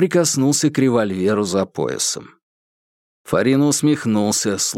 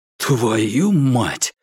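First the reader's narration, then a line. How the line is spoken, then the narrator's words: Breathed out. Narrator (Russian): выдохнул Курц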